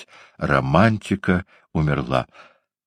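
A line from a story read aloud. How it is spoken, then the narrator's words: Whispering. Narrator (Russian): бедняги огненного фонтана, который продолжал покачивать головой и шептать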